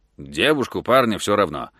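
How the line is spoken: Impatient grumble. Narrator (Russian): нетерпеливо пробурчал Фрэнк

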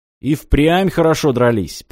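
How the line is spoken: Deep bass voice. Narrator (Russian): пробасил Демьян

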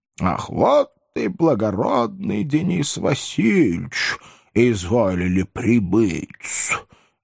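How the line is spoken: Slow drawl. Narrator (Russian): медленно протянул Фигнер

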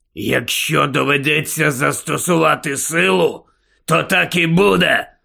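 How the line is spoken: Growling. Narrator (Ukrainian): прогарчав Муді

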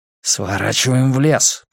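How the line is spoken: Hissing. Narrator (Russian): прошипел Брус

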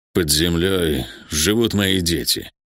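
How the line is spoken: Low chilling voice. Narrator (Russian): произнес он низким голосом, от которого у Хьюга по коже побежали мурашки

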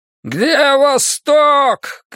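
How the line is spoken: Shouted again. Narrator (Russian): крикнул он снова

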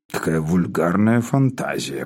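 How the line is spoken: Muttered. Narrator (Russian): пробормотал Спиридон

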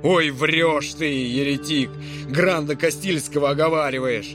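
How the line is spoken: Furious roar. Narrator (Russian): проревел фра Мартин

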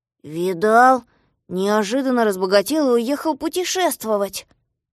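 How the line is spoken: Grumbling. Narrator (Russian): проворчал Козлик

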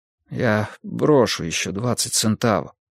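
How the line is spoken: Desperate mutter. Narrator (Russian): пробормотал он в полном отчаянии

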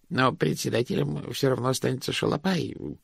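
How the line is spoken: Muttering. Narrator (Russian): пробормотал он

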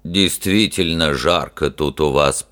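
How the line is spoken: Low booming voice. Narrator (Russian): прогудел он

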